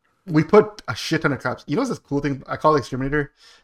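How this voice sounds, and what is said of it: Usual voice. Nothing is said of it.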